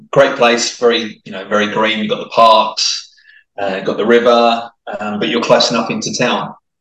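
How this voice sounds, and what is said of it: English accent with slight Australian twang. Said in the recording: “my accent is probably a bit mixed now, actually. I would say I was very much English ... the odd twang of the Aussie that comes through ... every now and then the odd Aussie twang”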